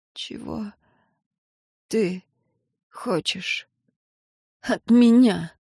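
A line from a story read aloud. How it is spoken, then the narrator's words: Hoarse, strained. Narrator (Russian): прохрипела она, с трудом выталкивая из себя каждое слово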